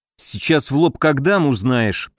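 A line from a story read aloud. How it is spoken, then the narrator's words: Grumbled. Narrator (Russian): проворчал я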